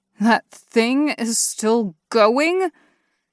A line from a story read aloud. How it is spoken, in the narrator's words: Kristoff exclaimed